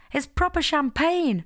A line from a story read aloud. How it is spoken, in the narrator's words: Jess exclaimed